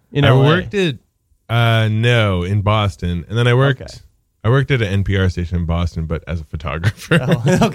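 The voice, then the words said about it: Smooth radio-announcer voice. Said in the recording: “good radio voice”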